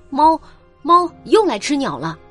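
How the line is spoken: Calling from downstairs. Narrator (Chinese): 李嫂在楼下叫道

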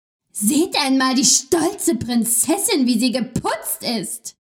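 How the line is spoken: Mocking group shout, laughing. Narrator (German): riefen sie, lachten

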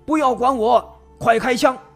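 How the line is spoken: Shouting. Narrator (Chinese): 陈子军这么喊

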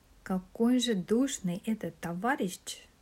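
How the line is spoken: Whisper. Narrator (Russian): шепнула

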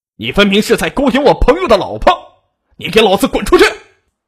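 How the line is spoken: Furious yell. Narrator (Chinese): 肖丽见怒火中烧，吼叫道

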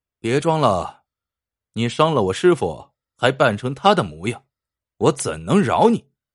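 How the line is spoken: Cold reply. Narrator (Chinese): 明心冷冷的回道

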